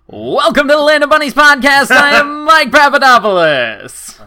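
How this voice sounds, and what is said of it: Game show host voice. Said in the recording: “My game show voice is never smart”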